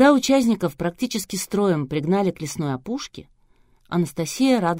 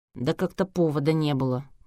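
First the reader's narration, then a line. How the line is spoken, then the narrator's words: Grumbling mutter. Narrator (Russian): пробурчал Саша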